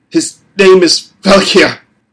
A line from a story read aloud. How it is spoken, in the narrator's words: the boy spat